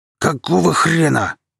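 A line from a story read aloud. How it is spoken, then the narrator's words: Roaring. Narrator (Russian): взревел парень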